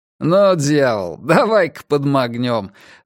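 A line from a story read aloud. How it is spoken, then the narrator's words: Laughing older man. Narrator (Russian): рассмеялся старший из двоих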